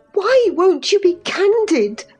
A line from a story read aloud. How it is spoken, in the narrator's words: cried Catherine